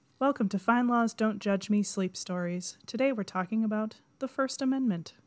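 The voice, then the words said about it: Calm sleep-story radio narrator voice. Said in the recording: “should I do it like a sleep story? ... my NPR voice”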